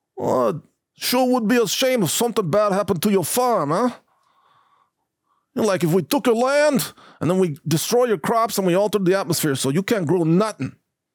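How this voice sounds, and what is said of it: Put-on Brooklyn gangster accent. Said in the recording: “I got to get my regional accents a little more on target there. But I want to give it a little bit of a more like a Brooklyn gangster feel”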